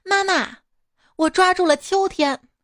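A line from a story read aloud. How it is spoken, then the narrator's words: Joyful child's cry. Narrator (Chinese): 这正太喜悦的叫道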